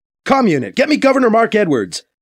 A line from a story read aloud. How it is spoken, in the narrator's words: BC barks